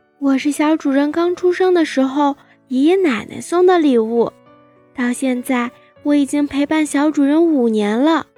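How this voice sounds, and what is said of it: Soft, quiet shy voice. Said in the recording (Chinese): “兔子小声地回答”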